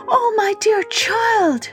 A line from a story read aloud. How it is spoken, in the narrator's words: she cried